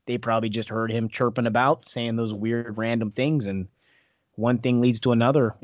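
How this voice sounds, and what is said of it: Regional accent. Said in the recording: “I just get so distracted by your accent.”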